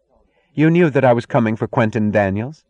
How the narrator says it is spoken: asked coldly, in the tone of an enemy's accusation

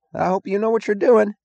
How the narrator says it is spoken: he cried, his voice half threat, half plea

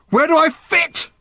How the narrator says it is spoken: screamed Random suddenly

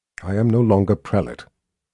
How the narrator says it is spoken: Anne said in a quietly commanding voice that sounded very much as if she still were

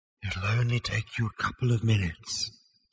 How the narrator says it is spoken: said the voice very faintly

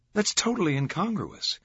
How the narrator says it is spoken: a female student had blurted

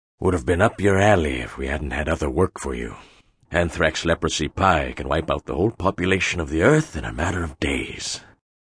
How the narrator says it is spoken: Hagbard was saying in a low voice to Otto Waterhouse

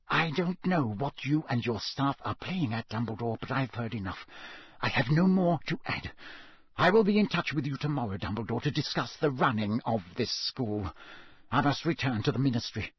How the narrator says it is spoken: whispered

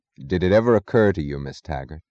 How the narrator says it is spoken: said Galt in the casual tone of an abstract discussion, but as if he had known her thoughts

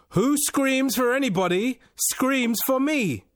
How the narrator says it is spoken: replied in a loud voice

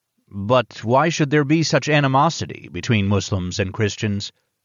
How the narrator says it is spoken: asked

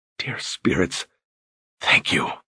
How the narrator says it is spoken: he whispered

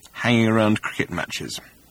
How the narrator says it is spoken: added in an undertone

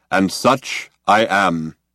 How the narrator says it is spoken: intoned Deep Thought

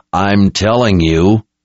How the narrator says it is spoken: Nathan growled

